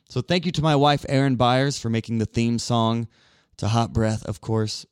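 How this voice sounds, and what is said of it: Raspy, tired voice giving out. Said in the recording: “my voice gets raspy, you could tell. I mean, that was a long interview. My voice is now giving out on me.”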